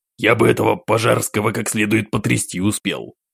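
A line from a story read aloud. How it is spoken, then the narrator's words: Frowning grumble, emperor. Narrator (Russian): Продолжая хмуриться, проворчал император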